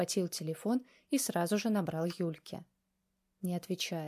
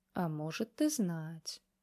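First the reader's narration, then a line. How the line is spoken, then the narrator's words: Brother, thoughtful. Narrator (Russian): задумчиво ответил брат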